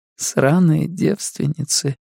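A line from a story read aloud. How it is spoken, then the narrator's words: Sleepy mumble. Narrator (Russian): сонно бормочет она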